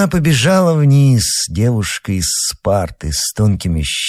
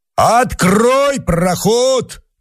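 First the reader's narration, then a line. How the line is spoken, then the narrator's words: Shouted from below. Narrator (Russian): крикнул внизу Мишка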